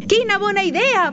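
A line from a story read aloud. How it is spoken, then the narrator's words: Many voices shouting. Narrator (Catalan): van cridar tots els rens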